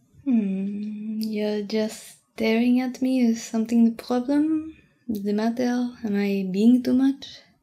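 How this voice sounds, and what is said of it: Non-native English accent. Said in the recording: “my accent sounds cute because I speak English for you, then if you speak French for me, it's cute because you're trying so hard”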